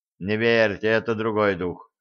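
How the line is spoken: Dejected captain sighing. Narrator (Russian): удрученно вздохнул капитан

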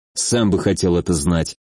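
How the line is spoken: Irritated grumble. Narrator (Russian): раздраженно буркнул я

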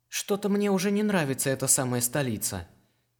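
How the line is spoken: Sighing. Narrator (Russian): вздохнул Даран

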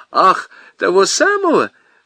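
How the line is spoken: Laughing. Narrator (Russian): засмеялась телефонистка

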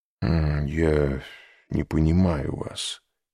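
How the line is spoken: Muttering. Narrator (Russian): пробормотал Люсьен

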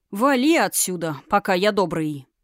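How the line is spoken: Rude curt remark. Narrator (Russian): грубо бросив

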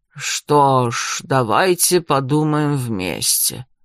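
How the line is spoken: Slow, deliberate speech. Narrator (Russian): наконец медленно произнес он

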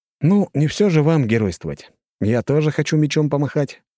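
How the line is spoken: Amused snort. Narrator (Russian): хмыкнул я

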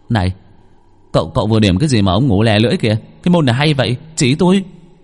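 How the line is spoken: Shouting. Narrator (Vietnamese): Bằng la lên

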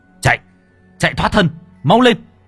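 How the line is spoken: Shouting. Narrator (Vietnamese): quát

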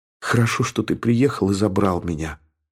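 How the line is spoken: Whisper. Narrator (Russian): прошептала она

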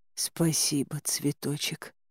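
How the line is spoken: Barely audible whisper. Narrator (Russian): прошептала я еле слышно

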